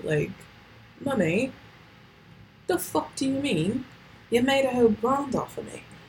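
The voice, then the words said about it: Weak put-on British accent. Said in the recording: “That's not my best British accent ... shouldn't have done the British accent”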